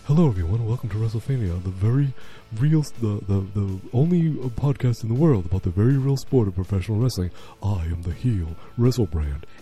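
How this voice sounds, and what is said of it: Imitates another person's voice. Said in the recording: “This is my impression of WrestleFan.”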